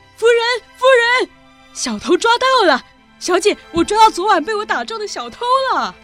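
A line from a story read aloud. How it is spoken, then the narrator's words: Excited shouting. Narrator (Chinese): 凯洛斯…兴奋地…手舞足蹈地喊着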